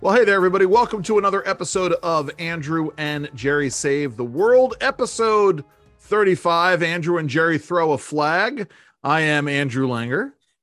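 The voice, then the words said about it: Radio announcer voice. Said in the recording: “I'm using my radio voice here,”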